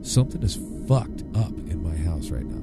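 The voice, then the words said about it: Whispering. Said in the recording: “Whispering? ... I don't know why I'm whispering.”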